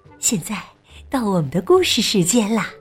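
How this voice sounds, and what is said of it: Soft, quiet voice. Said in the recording (Chinese): “小声说道”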